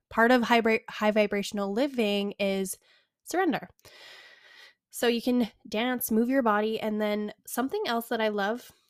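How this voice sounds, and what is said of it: Breathless, out-of-breath speech. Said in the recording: “I don't know why I'm out of breath, you guys, I'm just sitting here.”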